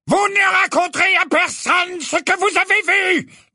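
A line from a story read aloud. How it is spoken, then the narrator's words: Loud shouting. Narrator (French): vociféra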